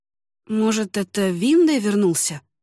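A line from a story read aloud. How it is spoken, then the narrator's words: Uncertain, embarrassed. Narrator (Russian): неуверенно предположила Айнери, явно смущенная приказным тоном Этайна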